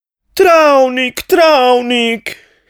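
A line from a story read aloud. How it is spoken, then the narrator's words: Pleading. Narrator (Slovenian): je prosila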